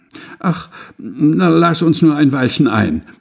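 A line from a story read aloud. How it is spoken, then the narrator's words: Pitiful pleading voice. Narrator (German): baten mit kläglicher Stimme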